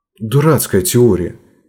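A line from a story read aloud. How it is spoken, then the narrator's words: Angry remark. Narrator (Russian): сердито бросила в темноту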